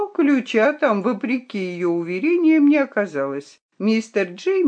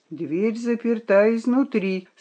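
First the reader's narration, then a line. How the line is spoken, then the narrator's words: Quiet. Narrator (Russian): сказал он тихо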